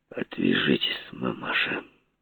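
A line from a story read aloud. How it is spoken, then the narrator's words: Through gritted teeth. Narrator (Russian): сквозь зубы процедил я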